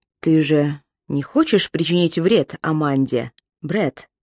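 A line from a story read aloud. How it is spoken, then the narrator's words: Quiet, even voice. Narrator (Russian): сказал тихим, ровным голосом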